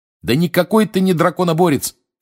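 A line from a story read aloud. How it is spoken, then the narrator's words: Shouting. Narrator (Russian): кричал его приятель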